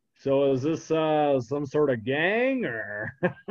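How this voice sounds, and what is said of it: Imitates another person's voice. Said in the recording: “Your Nicolas Cage impression is actually pretty damn good.”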